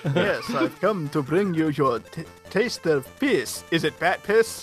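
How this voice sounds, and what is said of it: Put-on Hungarian Dracula accent. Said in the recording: “your best Hungarian accent”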